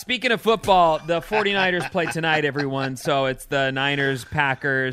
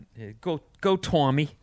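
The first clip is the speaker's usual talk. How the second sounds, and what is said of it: Slight put-on Boston accent. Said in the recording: “with a little bit of a Boston accent. ... Very little bit.”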